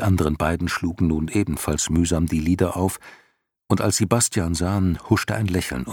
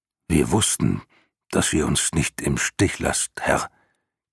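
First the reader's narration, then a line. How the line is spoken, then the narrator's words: Croaking. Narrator (German): krächzte Hykrion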